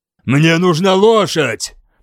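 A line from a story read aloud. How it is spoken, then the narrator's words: Growling. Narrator (Russian): прорычал я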